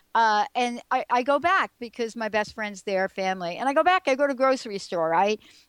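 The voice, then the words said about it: Slight East Coast American accent. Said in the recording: “I'm from the East Coast, actually ... I grew up on the East Coast. ... I could tell by your accent. ... Yeah, a little bit”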